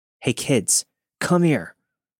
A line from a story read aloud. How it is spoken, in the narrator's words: he yelled